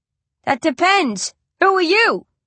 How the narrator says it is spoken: I shout back

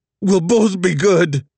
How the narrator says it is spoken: Nola begged

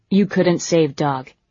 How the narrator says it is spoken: he said flatly

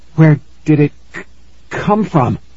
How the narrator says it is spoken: he stammered

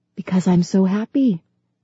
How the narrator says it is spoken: to whisper back

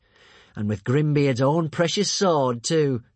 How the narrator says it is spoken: chuckled Alvin

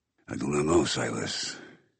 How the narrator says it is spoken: said in a low voice

